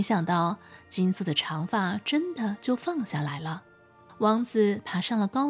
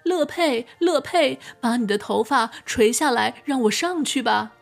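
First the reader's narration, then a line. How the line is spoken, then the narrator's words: Calling out, imitating witch. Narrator (Chinese): 在好奇心的驱使下，王子便也学着女巫刚才的口吻，对着高塔喊道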